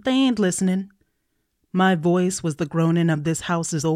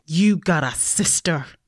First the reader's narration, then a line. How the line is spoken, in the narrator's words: I snarled to my brother as he slept